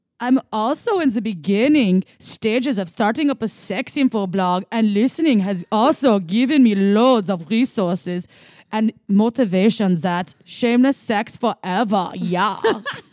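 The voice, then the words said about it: Put-on German accent, shaky start. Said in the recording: “German, here we go ... in German accent ... my German wasn't as good in the beginning. I needed to warm that one up”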